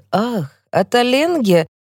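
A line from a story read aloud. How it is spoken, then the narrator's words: Exclaimed. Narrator (Russian): он воскликнет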